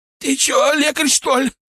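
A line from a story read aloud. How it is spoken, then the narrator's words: Groaning. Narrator (Russian): простонал козел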